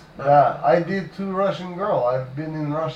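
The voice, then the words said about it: Put-on Russian accent. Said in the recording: “Did not like either of the Russian accents. ... I think I go in this accent the rest of the night.”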